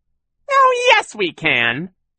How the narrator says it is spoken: Shirley said in her silly high voice

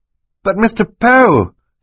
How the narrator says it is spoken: Klaus said indignantly

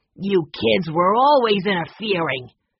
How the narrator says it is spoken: sneered

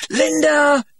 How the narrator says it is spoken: he shouted

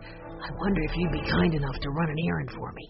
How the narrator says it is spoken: he whispered

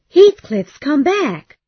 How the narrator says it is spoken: she cried

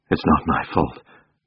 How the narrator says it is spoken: Muttering

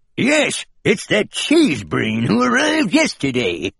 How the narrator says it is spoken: a voice grumbled

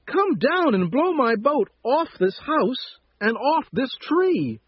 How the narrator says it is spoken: shouted the mouse

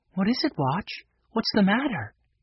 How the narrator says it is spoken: she whispered

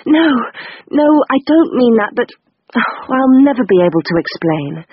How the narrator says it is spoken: gasped out

